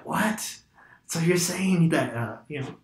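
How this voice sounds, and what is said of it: Put-on old man voice. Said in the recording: “I'm trying to do old man voice.”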